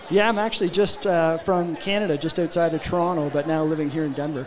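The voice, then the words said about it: Canadian accent. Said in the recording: “I get the accent now, a boot. I get it right there, you hoser. ... That's all the Canadian cliches that I actually know.”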